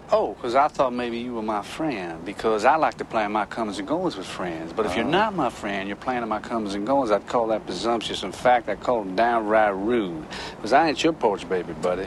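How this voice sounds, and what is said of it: Appalachian accent mixed with New York. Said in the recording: “developing an accent for his character in Cape Fear ... an Appalachian ... incorporating his speech patterns into De Niro's New Yorkese”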